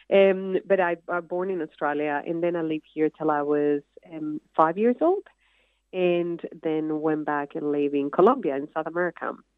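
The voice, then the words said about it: Noticeable non-Australian accent in English. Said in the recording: “I have to always explain kind of the ... accent every day”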